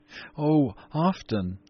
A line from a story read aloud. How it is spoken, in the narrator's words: cried the little girl